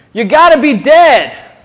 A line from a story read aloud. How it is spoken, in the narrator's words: one five-year-old boy shouted